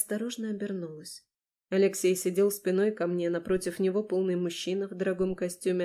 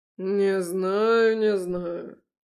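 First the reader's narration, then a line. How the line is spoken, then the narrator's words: Deep male voice. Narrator (Russian): пробасил мужчина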